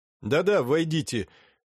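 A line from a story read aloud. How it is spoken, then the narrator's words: Loud speech. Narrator (Russian): громко сказал Илья Андреевич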